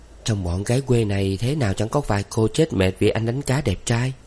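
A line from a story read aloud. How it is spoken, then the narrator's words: Soft smiling speech. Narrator (Vietnamese): Hiền mỉm cười nói khẽ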